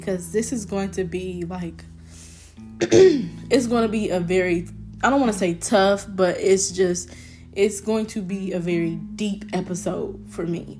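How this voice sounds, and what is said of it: Shaky voice. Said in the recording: “my voice is a little shaky”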